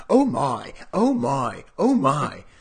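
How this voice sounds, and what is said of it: Fussy robot character voice. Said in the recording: “doing my impersonation of C-3PO”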